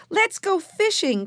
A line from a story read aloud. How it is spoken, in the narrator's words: cried Benny